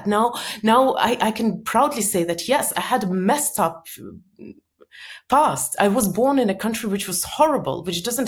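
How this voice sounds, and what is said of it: Strong Russian-sounding accent. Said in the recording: “I came from Soviet Union. I've got so much criticism for my bizarre accent ... my accent is so confusing”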